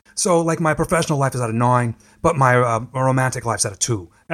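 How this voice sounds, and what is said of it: Long Island accent impression. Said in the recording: “my best Gary impression from Howard Stern ... He talks with a Long Island accent”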